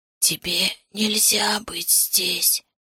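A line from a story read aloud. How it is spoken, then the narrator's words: Hoarse voice. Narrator (Russian): сказала хриплый голос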